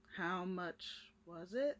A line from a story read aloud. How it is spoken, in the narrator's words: He says slowly